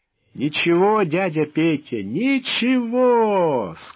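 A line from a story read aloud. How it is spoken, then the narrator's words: Speaking through laughter. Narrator (Russian): сквозь смех произнес Волк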